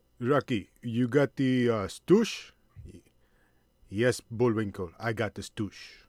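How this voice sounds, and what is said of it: Bad Russian-style Bullwinkle impression. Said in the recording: “bad Bullwinkle impersonation ... just a Russian impersonation of two guys named Rocky and Bullwinkle”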